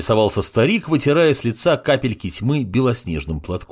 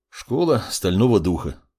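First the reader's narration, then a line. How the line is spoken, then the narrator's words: Sighing. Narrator (Russian): вздохнул маг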